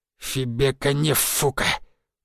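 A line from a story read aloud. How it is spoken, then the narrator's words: Lisping through broken teeth. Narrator (Russian): прошепелявил он, выплевывая осколки зубов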